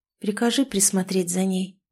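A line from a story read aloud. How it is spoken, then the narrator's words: Whisper. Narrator (Russian): прошептала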